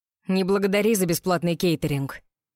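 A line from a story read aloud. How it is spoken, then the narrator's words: Growling. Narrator (Russian): прорычал Роу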